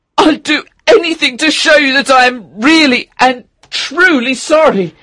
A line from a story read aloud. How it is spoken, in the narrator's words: cried Octavian